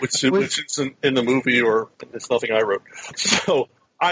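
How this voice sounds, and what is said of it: Usual voice. Nothing is said of it.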